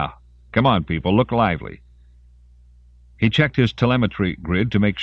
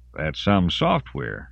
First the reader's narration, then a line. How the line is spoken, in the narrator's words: Hammersey said dryly